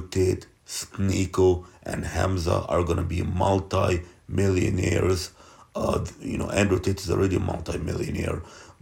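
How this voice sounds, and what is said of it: Strained, fading hoarse voice. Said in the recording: “I'm really losing my voice here. I'm really losing my voice.”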